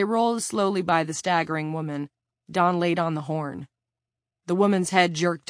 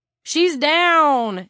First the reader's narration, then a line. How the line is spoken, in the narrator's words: Eric yelled